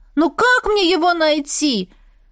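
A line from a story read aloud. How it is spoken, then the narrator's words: Desperate exclamation. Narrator (Russian): воскликнула я уже в отчаянии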